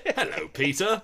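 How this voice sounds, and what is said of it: Posh professorial accent. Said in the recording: “He's got like a posh accent ... like a professor”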